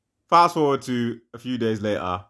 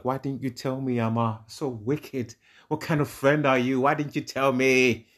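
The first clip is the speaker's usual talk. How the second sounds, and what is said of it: Dramatized put-on accent. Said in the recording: “Did she say it in that accent? ... No, I'm just dramatizing.”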